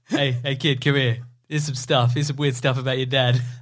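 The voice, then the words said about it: Imitates another person's voice. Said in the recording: “doing an impression of you”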